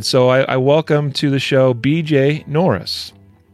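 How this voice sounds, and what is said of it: Polished podcast host voice. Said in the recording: “you switched your podcast voice ... the podcast voice has been developed over 426 episodes now”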